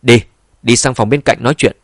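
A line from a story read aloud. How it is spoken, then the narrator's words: Interested hearty laugh. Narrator (Vietnamese): Mục Đông Phong ông ta cũng rất hứng thú, bèn cười lớn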